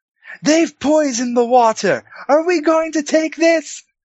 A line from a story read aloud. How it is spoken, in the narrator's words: Beric is standing on the cauldron, yelling out to the crowd